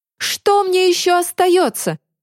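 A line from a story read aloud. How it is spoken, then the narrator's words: Exasperated exclamation. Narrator (Russian): наконец воскликнул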